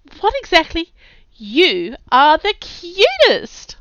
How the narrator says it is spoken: giggled

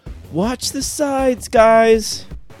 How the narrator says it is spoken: he's gonna scream out

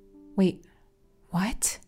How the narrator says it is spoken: I gasp

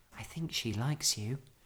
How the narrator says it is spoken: whispered Judy

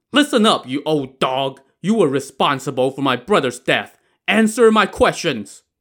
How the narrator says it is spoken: Wang and roared

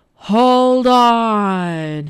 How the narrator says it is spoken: roared

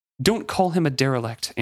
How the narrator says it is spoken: Amber snapped

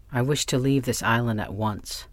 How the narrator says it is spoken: said Rainsford firmly

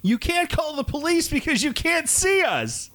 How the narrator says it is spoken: The driver shouting

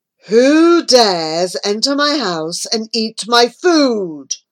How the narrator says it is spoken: a deep voice roared

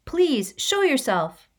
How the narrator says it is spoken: He called out

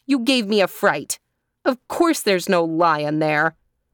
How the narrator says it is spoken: she said crossly

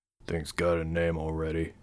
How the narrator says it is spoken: Thomas muttered

